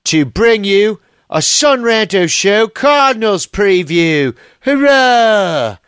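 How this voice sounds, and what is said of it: Deliberately bad English accent. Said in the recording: “with a bad English accent ... I'll quit with the charade. I want to speak in a bad English accent”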